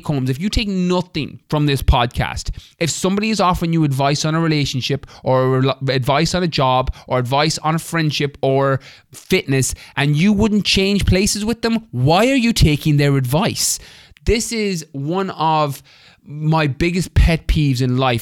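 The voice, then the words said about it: Animated, passionate delivery. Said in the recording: “you can probably hear the animation in my voice”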